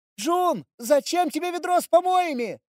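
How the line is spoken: Distant shout. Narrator (Russian): Из глубин кухни выкрикнула Мия

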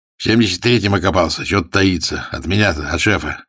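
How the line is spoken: Wry snort. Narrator (Russian): хмыкнул Тарасов

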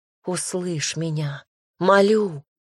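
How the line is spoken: Musical pleading whisper. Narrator (Russian): прошептала, облекая чувства в музыку

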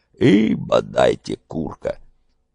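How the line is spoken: Good-natured grumble. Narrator (Russian): бурчал незлобливо

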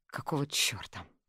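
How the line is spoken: Groaned. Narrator (Russian): простонал

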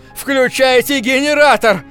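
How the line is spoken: Shout. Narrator (Russian): закричал я

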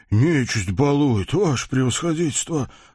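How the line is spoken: Sigh. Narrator (Russian): вздохнул купец

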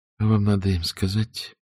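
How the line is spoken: Muffled voice. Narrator (Russian): Кристина говорила глухо

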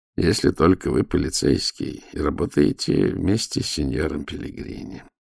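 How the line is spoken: Gloomy remark. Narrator (Russian): уныло заметил голос

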